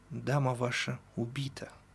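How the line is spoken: Gentle. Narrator (Russian): ласково сказал Чекалинский

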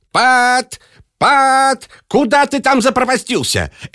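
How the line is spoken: Rabbit shouting. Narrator (Russian): кричал кролик

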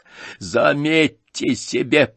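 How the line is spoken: Wheezing through a cough. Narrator (Russian): прохрипел сквозь кашель

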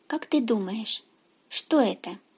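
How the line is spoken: Whispered answer. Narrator (Russian): День … тоже шепотом отвечает

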